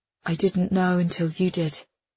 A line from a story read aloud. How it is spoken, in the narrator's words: she murmurs